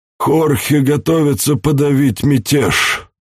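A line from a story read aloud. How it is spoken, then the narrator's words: Grumbling. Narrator (Russian): проворчал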